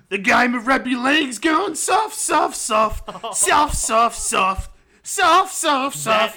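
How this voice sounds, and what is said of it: Imitates another person's voice. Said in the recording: “try and do a Block of Roach impersonation.”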